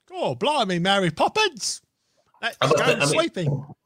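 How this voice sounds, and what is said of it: Mock Cockney accent. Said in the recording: “what you were doing then was still a better Cockney accent than what Dick Van Dyke did in Mary Poppins. Even you taking the Michael, it's still like 1,000 times better.”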